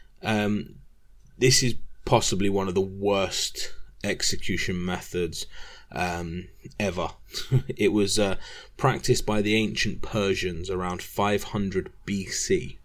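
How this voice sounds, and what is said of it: Unusual accent. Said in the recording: “I know I have a weird accent”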